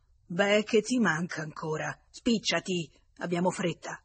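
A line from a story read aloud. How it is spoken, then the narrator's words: Furious growl. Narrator (Italian): furibondo, ringhiò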